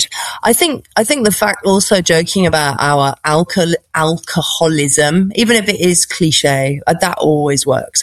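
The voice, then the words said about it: British BBC-style accent. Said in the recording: “you probably tell from my BBC accent that I'm British”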